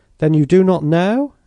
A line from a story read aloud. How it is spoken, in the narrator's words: exclaimed the portiere in an anxious tone